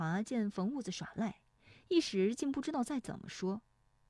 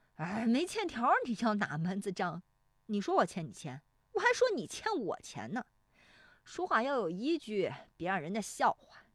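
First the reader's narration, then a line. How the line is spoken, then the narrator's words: Grinning. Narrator (Chinese): 冯屋子呲牙一笑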